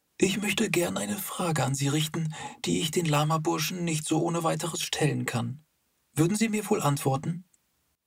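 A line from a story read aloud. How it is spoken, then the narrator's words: Old man's confidential murmur. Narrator (German): der Alte murmelte in vertraulichem Ton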